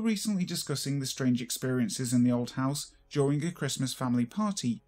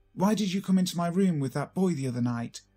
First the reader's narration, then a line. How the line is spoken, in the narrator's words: she snapped to my sister